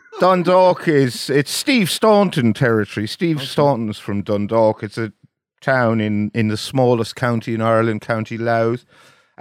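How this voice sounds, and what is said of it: Soft, wispy Irish accent. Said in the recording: “your twee, wispy Irish lilt”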